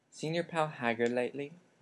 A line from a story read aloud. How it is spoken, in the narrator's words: he asked him quietly